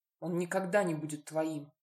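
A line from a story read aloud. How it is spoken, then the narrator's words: Through gritted teeth. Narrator (Russian): процедила та сквозь зубы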